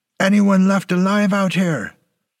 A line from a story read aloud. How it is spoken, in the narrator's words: he yelled the words at a blood-stained killing field